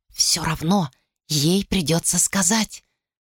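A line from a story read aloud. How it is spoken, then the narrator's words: Whisper. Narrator (Russian): шепнула она Глориан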